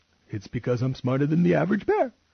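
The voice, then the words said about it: Cartoon bear character voice. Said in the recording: “worst Yogi Bear impression”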